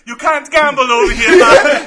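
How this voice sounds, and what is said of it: Put-on Jamaican accent. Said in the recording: “You start breaking into the accent? Like, in Jamaica”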